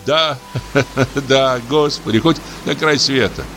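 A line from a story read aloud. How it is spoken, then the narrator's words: Laughing. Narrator (Russian): засмеялся дьякон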